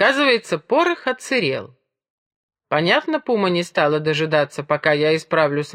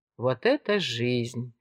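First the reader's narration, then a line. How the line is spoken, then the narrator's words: Envious sigh. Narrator (Russian): вздохнул Гали с откровенной завистью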